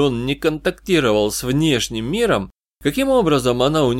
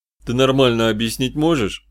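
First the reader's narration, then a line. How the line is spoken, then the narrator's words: Displeased grumble. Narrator (Russian): Недовольно пробурчал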